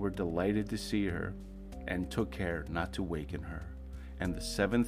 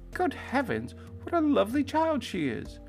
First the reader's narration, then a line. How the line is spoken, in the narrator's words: they cried out with wonder and astonishment, they said